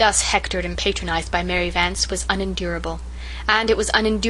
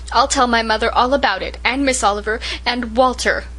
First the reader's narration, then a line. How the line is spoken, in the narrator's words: Rilla gasped between sniffs